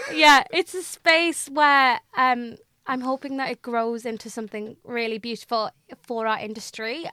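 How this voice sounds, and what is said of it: Mackem (Sunderland) English accent. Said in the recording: “my Macam accent”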